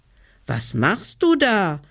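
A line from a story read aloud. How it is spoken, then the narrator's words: Child calling upward. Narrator (German): rief der kleine Hevelmann hinauf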